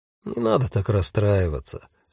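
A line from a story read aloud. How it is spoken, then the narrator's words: Gentle. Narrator (Russian): мягко сказал Альгирдес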